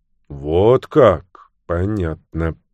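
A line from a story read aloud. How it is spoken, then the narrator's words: Slightly embarrassed drawl. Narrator (Russian): протянул Люк в легком смущении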